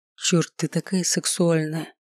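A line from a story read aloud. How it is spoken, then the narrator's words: Breathy exclamation. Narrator (Russian): Выдохнул Миша и уже хриплым голосом продолжил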